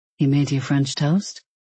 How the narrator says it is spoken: he murmured

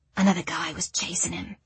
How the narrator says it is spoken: Grania whispered to Ed and Floor

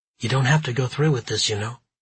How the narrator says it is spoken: she said

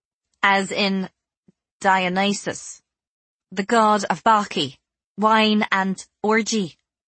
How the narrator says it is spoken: I said stiffly

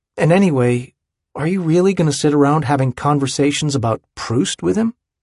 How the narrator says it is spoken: Andy sighs

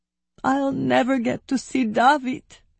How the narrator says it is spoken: she sobbed

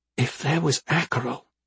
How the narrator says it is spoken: she whispered

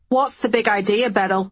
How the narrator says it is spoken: He barked

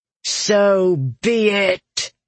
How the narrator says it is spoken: she snarled

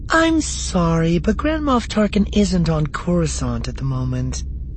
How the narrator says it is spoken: the receptionist at Tarkin's office said, her voice polite but vacant

